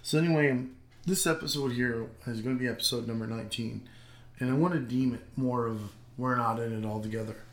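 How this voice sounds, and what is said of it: Sore, strained voice. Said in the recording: “my voice is a little wongy and suppressed or a little sore”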